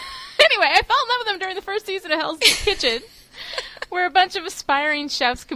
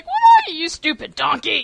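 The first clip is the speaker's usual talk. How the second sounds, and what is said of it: Imitated British accent. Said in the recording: “he says it in this British accent.”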